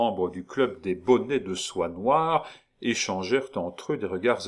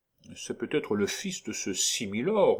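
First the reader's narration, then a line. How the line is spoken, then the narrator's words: Murmured. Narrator (French): murmura Geoffrey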